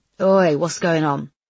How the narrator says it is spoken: grumbled Brickall

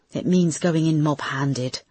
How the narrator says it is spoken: she sighed

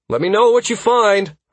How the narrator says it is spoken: I called out at the departing mage's back

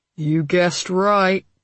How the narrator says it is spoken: Ezra said a little grimly

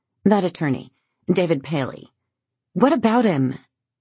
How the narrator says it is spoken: Gwen's voice comes out more sharply than she intended

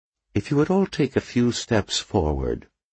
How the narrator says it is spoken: he said in a soft Dublin accent

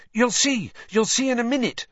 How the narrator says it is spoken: said Hermione excitedly

